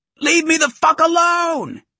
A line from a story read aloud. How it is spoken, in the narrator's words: He shrieked